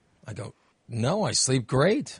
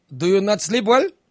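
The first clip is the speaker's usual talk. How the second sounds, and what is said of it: Imitates another person's accent. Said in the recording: “I'm trying to do his impersonation of his accent.”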